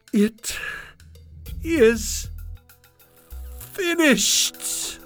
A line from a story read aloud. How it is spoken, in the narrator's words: he cried